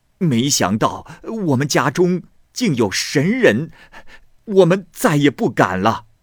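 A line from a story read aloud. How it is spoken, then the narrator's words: Frightened, earnest pleading. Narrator (Chinese): 关某的妻子非常的害怕，就同关某一起极其恳切的哀求他，并且说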